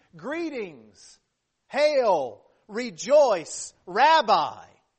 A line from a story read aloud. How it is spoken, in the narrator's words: A sign of intimacy and affection coming from a man, who shouted in the height of hypocrisy